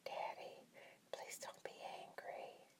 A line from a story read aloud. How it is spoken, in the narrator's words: I whispered